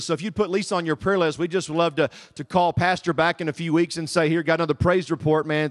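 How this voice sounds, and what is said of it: Southern American accent. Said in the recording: “As you can tell, I am not from here. My accent gives me away. ... So I hope you guys can understand the Southern dialect today.”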